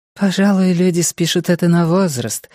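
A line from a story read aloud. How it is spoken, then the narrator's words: Sighed. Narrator (Russian): вздохнула Тигрис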